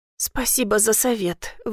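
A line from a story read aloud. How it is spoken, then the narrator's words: Strained, forced out. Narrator (Russian): выдавила из себя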